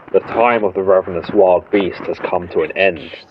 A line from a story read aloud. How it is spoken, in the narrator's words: he said, with a low rumbling in his throat